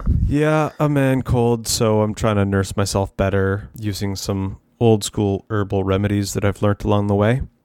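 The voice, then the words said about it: Sick-sounding voice. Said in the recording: “I've got a cold, and man cold.”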